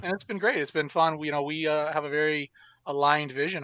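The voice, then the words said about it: Canadian English accent. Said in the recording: “part of our Canadian contingent up there in the Great White North ... from my accent ... I noticed the oot rather than the out”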